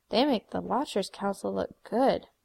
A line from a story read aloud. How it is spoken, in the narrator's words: Don muttered